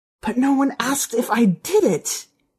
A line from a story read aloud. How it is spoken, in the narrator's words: she said, her voice a hoarse whisper